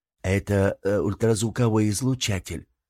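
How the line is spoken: Plain. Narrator (Russian): сказал Афанарим

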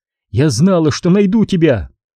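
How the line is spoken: Exclamation. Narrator (Russian): воскликнула она

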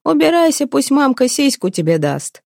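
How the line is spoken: Shouting through laughter. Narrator (Russian): древляне кричали сквозь смех

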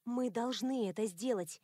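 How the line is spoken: Quiet. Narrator (Russian): тихо сказала я

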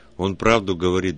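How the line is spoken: Sullen grumble. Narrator (Russian): буркнул Петька, насупившись

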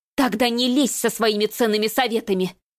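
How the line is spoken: Sharp angry bark. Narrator (Russian): Рявкнула

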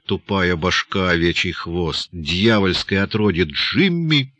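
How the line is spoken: Hissing. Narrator (Russian): зашипела Эльзи

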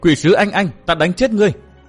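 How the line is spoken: Girl's shouted question. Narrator (Vietnamese): tiếng cô bé hét hỏi

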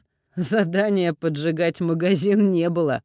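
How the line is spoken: Laughing. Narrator (Russian): рассмеялся

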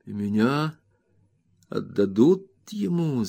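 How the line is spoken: Stammering question. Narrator (Russian): запинаясь, спросил я

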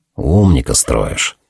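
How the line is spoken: Muttered. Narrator (Russian): пробормотал я

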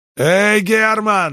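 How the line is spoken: Yelling. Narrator (Russian): заорал Джонни

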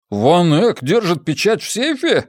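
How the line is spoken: Short laugh. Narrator (Russian): хохотнул Джеспер

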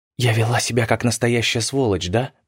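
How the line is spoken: Whisper. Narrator (Russian): прошептала

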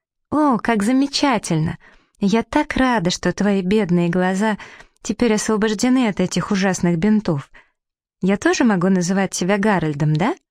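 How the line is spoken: Joyful laughing exclamation. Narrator (Russian): рассмеялась от радости, воскликнула

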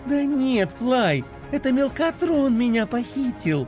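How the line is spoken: Cheerful. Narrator (Russian): радостно объяснила Пинки

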